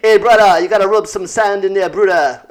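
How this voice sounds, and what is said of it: Put-on island accent, sounds Jamaican. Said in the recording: “I'm just going to do that accent because I feel like that would fit them, the Comorans ... I don't think you sounded Jamaican”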